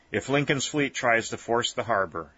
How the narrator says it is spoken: said Rhett

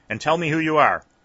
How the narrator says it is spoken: he cried sharply

